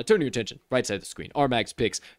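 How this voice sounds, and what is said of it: Deep radio announcer voice. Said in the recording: “I know I have a deep radio voice ... You can get even lower than that one, my guy ... it's kind of hard for me to get that low”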